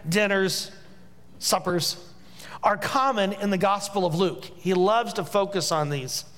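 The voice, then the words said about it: Hoosier (Indiana) accent. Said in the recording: “my Hoosier accent, meals, I can't distinguish”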